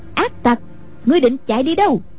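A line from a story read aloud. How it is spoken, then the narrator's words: Loud angry shout. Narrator (Vietnamese): Anh cô quát lớn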